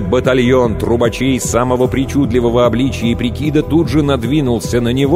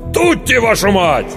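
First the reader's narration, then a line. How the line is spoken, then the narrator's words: Terrified yell. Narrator (Russian): Стэн заорал от ужаса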